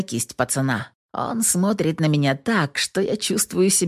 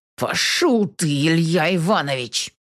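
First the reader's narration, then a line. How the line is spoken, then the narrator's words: Through gritted teeth. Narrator (Russian): цедит сквозь зубы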